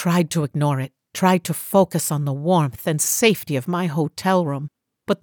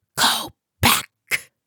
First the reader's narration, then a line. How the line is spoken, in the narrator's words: whispered, his voice a ragged whisper